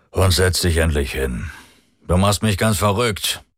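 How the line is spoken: Grumbling. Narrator (German): brummte er

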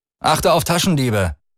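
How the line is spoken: Shouting over noise. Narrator (German): rief Lian über den Lärm hinweg

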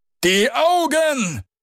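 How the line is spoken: Bodyguard roaring. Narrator (German): brüllte der Leibwächter

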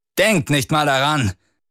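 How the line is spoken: Calling out. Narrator (German): rief Dorello

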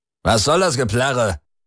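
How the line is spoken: Barking. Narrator (German): bellte er

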